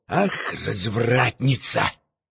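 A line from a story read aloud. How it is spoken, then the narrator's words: Embarrassed covering whisper. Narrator (Russian): понял, что вляпался, что произошел конфуз, и, желая скрыть его, прошептал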